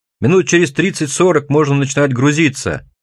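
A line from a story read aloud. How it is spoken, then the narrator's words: Yelling, spluttering, close to ear. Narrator (Russian): Вопит и брызгается он прямо мне в ухо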